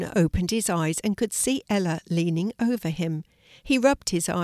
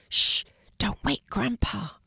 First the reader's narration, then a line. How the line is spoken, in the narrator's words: Ella whispered